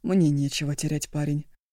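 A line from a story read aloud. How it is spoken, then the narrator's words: Calm. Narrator (Russian): спокойно сказал он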